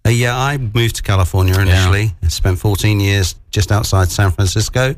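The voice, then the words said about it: British accent. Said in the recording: “I love the accent ... I'm from the UK originally.”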